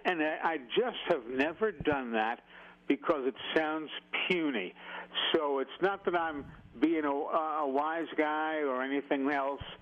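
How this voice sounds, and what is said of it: Weakened, recovering voice. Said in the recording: “my voice is still working its way back bit by bit”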